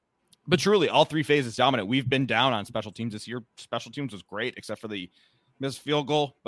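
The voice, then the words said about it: Slightly raspy, sick-sounding voice. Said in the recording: “my voice is a little raspy, if I have some coughs here and there”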